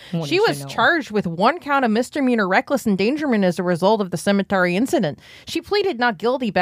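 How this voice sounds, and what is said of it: Usual voice. Nothing is said of it.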